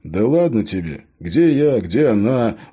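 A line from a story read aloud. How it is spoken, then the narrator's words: Sighing. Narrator (Russian): вздохнул шериф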